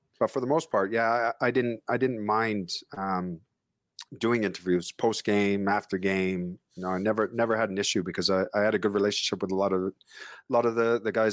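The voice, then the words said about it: Speaker's own foreign accent. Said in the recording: “accent ... a little bit exotic ... my accent”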